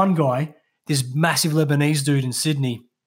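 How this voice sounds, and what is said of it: Usual voice. Nothing is said of it.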